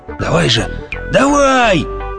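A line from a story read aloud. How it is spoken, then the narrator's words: Full-throated yell. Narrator (Russian): заорал он во всю глотку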